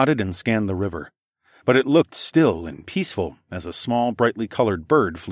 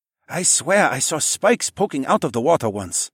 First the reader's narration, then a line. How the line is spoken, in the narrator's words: Sun-hee hissed